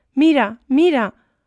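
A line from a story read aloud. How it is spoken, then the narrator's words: Dismayed shout, wife. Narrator (Spanish): gritó su mujer consternada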